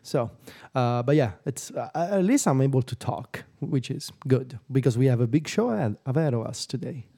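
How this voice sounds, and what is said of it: Voice still not fully recovered. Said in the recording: “my voice is still not fully recovered”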